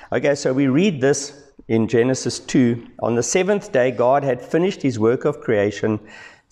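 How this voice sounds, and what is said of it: Hoarse voice after illness. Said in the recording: “Excuse my voice, but I'm really feeling fine. It's just a bit of a follow on, I guess, from being sick earlier in the week.”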